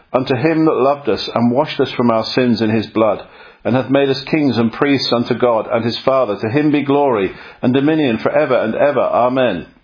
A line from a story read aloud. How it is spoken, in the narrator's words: She cried out